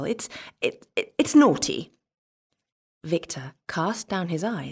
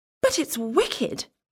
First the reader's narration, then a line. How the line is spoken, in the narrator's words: exclaimed Martha